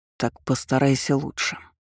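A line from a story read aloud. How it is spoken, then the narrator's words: Icy command. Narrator (Russian): ледяным голосом приказал ей Аргейл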